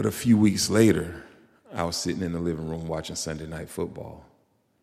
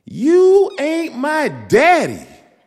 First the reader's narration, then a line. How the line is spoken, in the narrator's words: She put her little hands on her hips and she screamed